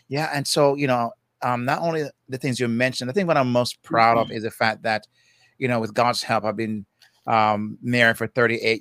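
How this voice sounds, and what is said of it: Jamaican accent. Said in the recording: “you hear my accent. You know, I'm from Jamaica ... when you hear my voice, you won't forget it”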